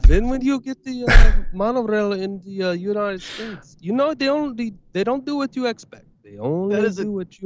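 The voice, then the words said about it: Poor put-on German accent. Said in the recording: “Was that supposed to be a German accent? Like, what the fuck was that?”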